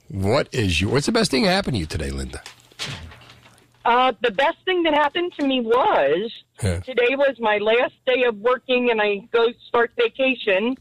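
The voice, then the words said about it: Kentucky accent. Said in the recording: “I love that voice. I love that Kentucky accent.”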